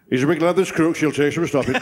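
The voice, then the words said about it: Imitates a rugby league voice. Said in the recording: “the Royal Rugby League impression ... a rugby league impersonation ... that's a good impression”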